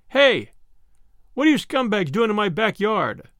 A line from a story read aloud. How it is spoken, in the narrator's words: shouted